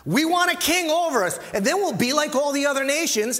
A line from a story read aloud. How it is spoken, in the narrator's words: shouted